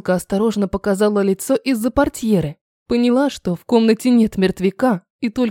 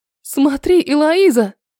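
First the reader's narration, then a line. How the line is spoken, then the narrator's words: Startled cry. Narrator (Russian): вскрикнула, когда призрак возник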